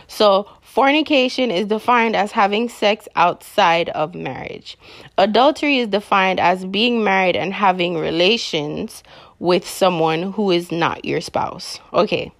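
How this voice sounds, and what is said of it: Strong regional accent. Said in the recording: “I probably need to reel back on my accent, but I guess when I'm passionate about a topic, it is very hard.”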